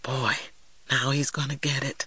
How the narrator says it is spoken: Little man cupped his hand and whispered to me

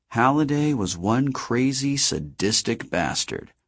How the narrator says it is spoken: Artemis muttered

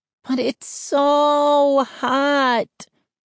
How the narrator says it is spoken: Mindy whined

